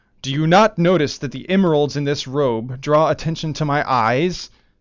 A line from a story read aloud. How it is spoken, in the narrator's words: the Khan once bellowed to a farmer